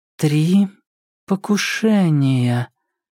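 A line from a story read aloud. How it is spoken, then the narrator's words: Slow. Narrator (Russian): медленно произнесла она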